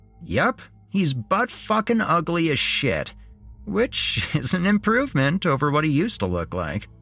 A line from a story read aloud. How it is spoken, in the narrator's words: Jeremy said with a laugh